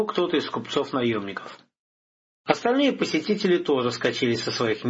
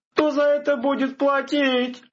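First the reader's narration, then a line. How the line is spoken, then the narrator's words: Shouting innkeeper behind counter. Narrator (Russian): закричал трактирщик, спрятавшийся за стойкой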